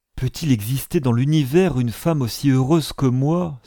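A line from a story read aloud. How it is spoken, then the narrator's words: Exclaimed. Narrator (French): s'écria Hélène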